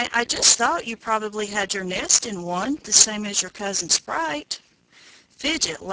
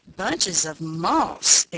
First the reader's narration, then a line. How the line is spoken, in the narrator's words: exclaimed Fidget